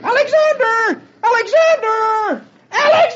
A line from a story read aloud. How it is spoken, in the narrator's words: Dagwood dashes down the street, screaming at the top of his voice